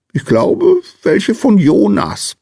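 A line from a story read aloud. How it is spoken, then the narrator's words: Small man's squeak. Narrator (German): piepste der kleine Mann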